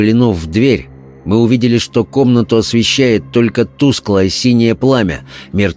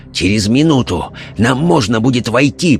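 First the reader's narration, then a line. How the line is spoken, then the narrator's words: Rasped. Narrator (Russian): прохрипел он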